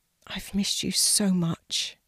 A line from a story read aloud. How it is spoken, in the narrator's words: whispered